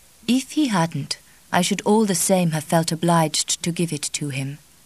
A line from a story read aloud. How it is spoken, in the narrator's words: said the Mother Superior gently